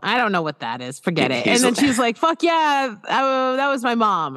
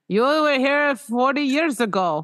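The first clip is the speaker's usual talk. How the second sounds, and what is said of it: Old-fashioned Midwestern American accent. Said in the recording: “Now I'm just making him, I don't know, Midwestern from the 40s? ... I can't do my accents tonight.”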